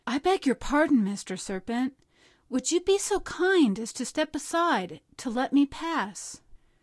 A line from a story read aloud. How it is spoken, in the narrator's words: trying to feel very brave, said in a sweet, soothing voice